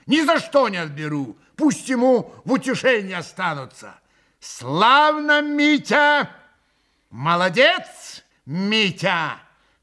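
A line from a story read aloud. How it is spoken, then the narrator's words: Shout with vicious note. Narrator (Russian): крикнула Грушенька, и страшно злобная нотка прозвенела в ее восклицании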